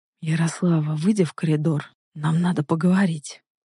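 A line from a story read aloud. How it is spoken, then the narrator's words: Quiet hoarse voice. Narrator (Russian): сказал тихо и хрипло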